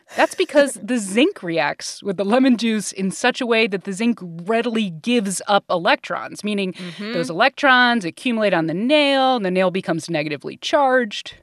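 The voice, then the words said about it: Teacher voice. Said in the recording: “using my teacher voice,”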